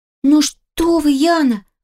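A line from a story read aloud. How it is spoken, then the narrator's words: Exclaimed. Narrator (Russian): воскликнула горничная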